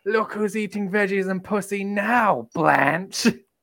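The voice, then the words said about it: Impression of Baby Jane. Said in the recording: “doing an impersonation of Baby Jane ... in the voice”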